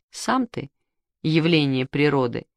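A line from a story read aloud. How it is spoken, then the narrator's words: Laughing man. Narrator (Russian): засмеялся Мишкин папа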